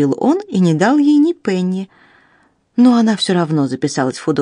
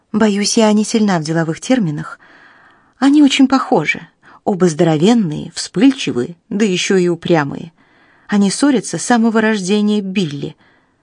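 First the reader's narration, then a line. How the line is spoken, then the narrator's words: Sighing. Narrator (Russian): вздохнула госпожа Макнотон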